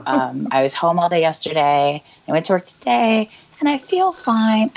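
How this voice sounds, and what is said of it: Weak, strained voice. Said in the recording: “I had very bad sickness... my voice is just coming back... I just sound really stupid, so you just have to put up with my voice”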